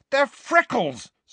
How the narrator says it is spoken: said Ron furiously

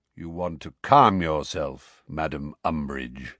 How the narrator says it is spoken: said Kingsley in his deep, slow voice

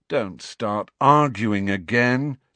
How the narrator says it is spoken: said Harry wearily

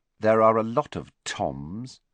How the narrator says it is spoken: muttered Riddle

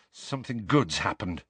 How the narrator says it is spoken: mumbled Harry

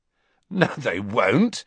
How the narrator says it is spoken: said Ron, who, like Harry, was laughing

